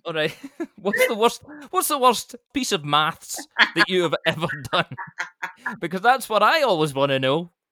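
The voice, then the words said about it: Scottish accent. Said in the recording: “it's your Scottish accent ... I love your Scottish accent”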